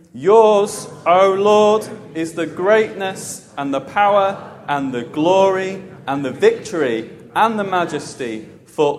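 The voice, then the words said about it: Loud, big reading voice. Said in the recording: “in a big voice.”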